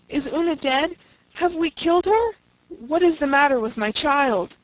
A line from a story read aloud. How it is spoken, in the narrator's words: gasped Faith